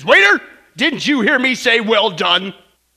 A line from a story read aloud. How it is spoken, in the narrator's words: he barks back at the waiter and he says